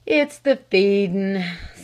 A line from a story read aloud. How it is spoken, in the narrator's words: sighed the old butler